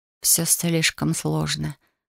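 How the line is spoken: Quiet. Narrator (Russian): ответила тихо

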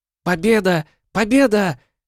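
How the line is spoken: Girlish joyful squeal. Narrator (Russian): Совершенно по-девчоночью радостно завизжала Гелара

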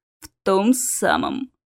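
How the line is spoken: Ominous creaking voice. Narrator (Russian): зловеще проскрипел Кельмир

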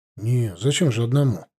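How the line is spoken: Muttered. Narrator (Russian): пробормотал я

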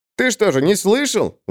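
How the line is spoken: Exclaimed. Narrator (Russian): воскликнул мещанин

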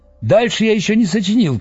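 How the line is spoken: Shout. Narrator (Russian): крикнул он

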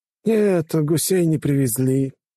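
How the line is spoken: Sighing. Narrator (Russian): вздохнул командир

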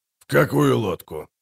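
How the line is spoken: Quiet question. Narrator (Russian): тихо спросил Аддарио Бах

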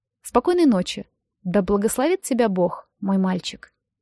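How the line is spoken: Tender kind voice. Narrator (Russian): Миссис Берр ласково сказала

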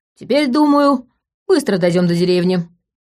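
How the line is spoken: Cheerful declaration. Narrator (Russian): бодро заявил Степа

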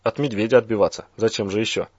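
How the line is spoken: Plain. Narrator (Russian): ответил Болт

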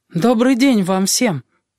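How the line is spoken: Anxious voice. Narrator (Russian): проговорил Бран тревожным голосом

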